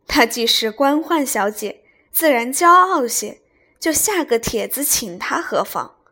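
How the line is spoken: Laughing. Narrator (Chinese): 王夫人笑道

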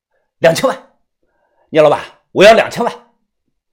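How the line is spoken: Stern sharp voice. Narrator (Chinese): 我厉声的说道

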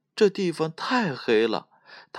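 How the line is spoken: Sighing. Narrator (Chinese): 叹道

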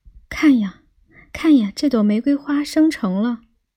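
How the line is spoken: Cried out. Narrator (Chinese): 那玫瑰树叫道

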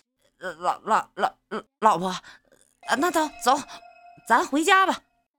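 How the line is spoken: Hurried soothing. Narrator (Chinese): 男人急忙安慰道

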